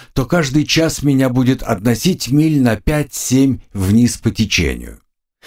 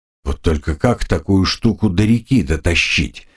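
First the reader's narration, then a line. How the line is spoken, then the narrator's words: Mumbled to himself. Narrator (Russian): пробормотал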